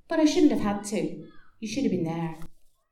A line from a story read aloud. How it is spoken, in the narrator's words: replied calmly